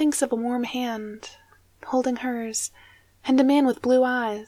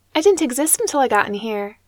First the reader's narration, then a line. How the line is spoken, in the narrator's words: she says